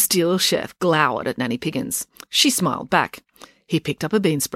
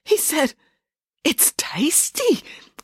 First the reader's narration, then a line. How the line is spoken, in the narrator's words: stammered the translator